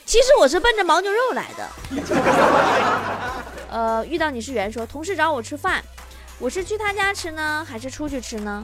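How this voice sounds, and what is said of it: Northeastern Chinese accent. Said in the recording (Chinese): “作为一个东北人，旅行社的一听我这口音”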